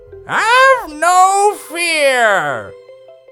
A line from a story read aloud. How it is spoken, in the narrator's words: The beast's voice boomed, suddenly close again